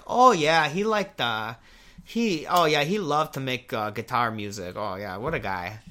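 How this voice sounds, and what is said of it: Exaggerated Chicago accent. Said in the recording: “This is the most Chicago accent I could have done.”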